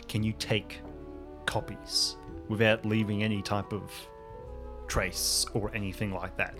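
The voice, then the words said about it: Lowered, quiet voice. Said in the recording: “lower my voice ... having this quiet conversation”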